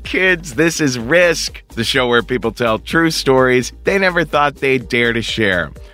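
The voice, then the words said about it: Hoarse, slightly strained voice. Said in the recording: “my voice is a little hoarse today ... left my voice a little shattered”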